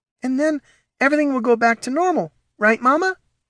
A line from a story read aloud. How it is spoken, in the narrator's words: Rex said, his tail wagging nervously